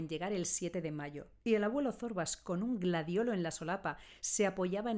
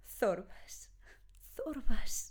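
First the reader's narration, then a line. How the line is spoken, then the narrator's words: Murmured, female. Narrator (Spanish): murmuró ella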